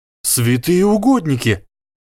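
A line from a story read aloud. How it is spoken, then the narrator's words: Exclaiming. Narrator (Russian): воскликнул Гарри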